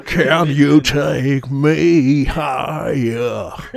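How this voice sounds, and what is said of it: Singer imitation with East Texas drawl. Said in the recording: “Give us your best Creed ... It's like the East Texas version ... It does oh, kind of have that draw”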